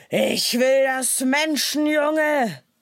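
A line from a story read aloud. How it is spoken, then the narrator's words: Tiger's thundering voice. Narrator (German): donnerte der Tiger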